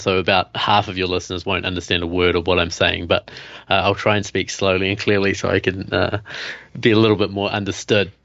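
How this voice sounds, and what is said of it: New Zealand accent. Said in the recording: “I have this funny accent. So I'm from New Zealand.”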